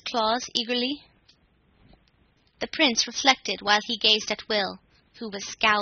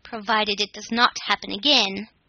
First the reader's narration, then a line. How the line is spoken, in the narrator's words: said the Prince of the Nooks sternly